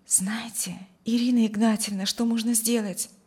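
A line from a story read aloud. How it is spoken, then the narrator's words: Quiet, joyful. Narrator (Russian): Тихо, но радостно промолвила она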